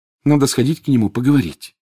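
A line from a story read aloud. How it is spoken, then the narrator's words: Sighing. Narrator (Russian): вздохнула Гермиона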